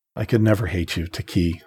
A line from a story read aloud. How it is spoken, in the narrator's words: said softly